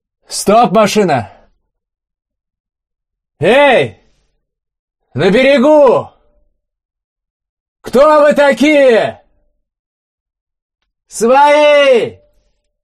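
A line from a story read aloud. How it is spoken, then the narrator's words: Warrior shouting in Russian. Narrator (Russian): По-русски прокричал один из воинов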